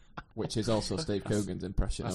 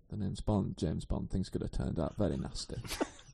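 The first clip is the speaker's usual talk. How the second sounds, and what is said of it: Timothy Dalton as James Bond impression. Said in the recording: “What was your Dalton? ... I did Dalton”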